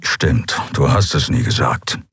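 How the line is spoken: Grumbling mutter. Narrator (German): brummte er

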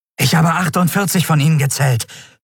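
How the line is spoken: Breathless report. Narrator (German): berichtete der Jadi atemlos

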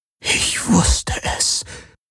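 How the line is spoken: Breathy whisper. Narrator (German): hauchte Kessli

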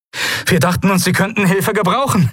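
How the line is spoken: Breathless call. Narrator (German): rief Novus atemlos

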